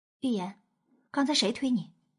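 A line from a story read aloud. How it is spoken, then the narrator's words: Low, gentle question. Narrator (Chinese): 娄玄影低声询问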